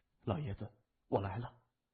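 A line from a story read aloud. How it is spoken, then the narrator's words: Low voice. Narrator (Chinese): 低声说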